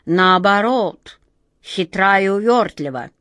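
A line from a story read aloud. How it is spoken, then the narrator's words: Grumbled. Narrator (Russian): проворчал наоборот второй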